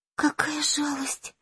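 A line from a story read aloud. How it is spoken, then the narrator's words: Tearful whisper. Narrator (Russian): прошептала Май, и в глазах ее тут же появились слезы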